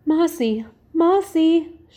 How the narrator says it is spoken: she cried aloud in terror

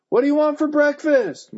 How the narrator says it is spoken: Mom shouted

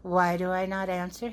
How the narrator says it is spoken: he said

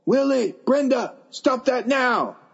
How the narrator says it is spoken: he yelled

